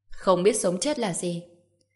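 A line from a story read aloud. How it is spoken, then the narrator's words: Cold laughing. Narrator (Vietnamese): Trần Bình lạnh lùng cười ha ha một tiếng, nói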